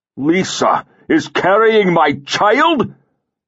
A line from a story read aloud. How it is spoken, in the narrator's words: Sirson roared